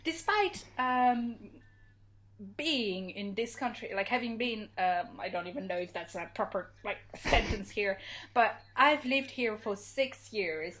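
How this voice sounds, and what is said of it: Non-native accent in English. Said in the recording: “my awful, awful accent ... my accent hasn't improved”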